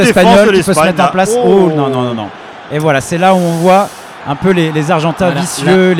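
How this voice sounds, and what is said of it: Usual voice. Nothing is said of it.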